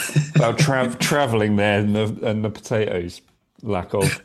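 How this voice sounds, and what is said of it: Usual voice. Nothing is said of it.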